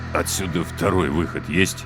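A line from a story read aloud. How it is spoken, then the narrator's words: Dejected, despondent voice. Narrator (Russian): Вконец упавшим голосом осведомился Три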